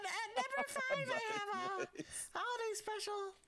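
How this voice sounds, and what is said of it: High-pitched Butters-like imitated voice. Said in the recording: “I can do a perfect NX. She's got like this high pitched like Butters voice.”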